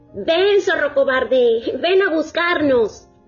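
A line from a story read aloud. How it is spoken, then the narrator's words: Two friends shouting taunts. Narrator (Spanish): Entonces las dos amigas le gritaron al zorro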